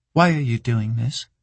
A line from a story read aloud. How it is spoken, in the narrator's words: she asked